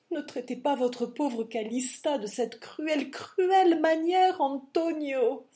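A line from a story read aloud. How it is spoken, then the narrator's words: Widow's cry. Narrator (French): s'écria sa veuve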